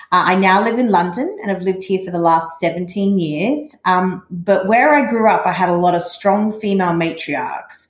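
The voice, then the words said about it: Australian accent. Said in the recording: “as you can probably tell from the accent, I'm Australian.”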